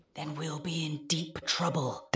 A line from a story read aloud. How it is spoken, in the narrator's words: the Christmas pig whispered back